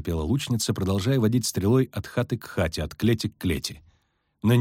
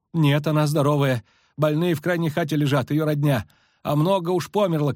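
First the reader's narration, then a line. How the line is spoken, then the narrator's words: Shouted. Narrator (Russian): крикнула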